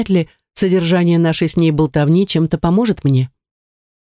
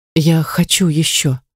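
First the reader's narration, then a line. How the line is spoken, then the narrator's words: Barely audible whisper. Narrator (Russian): едва слышно прошептала она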